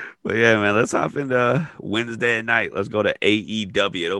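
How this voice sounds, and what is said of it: Usual voice. Nothing is said of it.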